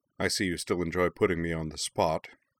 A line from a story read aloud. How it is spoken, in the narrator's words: Zuko remarked dryly